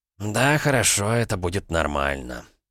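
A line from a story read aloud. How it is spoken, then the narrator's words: Exhaled speech. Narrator (Russian): Олег выдохнул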